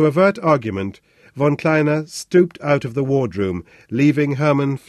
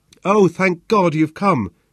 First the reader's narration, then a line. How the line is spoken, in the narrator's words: cried with joy, as though she were greeting a dear friend